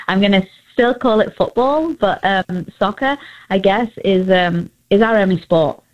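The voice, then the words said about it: English accent. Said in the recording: “as you can all probably hear, I'm from England ... Love your accent”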